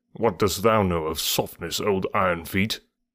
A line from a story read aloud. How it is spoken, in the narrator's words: Bagheera grunted